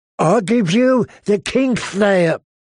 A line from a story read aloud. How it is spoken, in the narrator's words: Vargo Hote proclaimed in that thick, slubbery voice of his